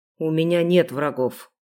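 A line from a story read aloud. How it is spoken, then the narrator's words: Grumble. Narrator (Russian): буркнул Хантер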